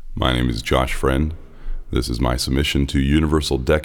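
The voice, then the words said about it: Exaggerated very deep low voice. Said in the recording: “could do the lowest voice ... what it sounds like when you're going as deep as you possibly can”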